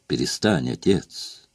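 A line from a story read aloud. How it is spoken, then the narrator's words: Lazy. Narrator (Russian): лениво сказал хомяк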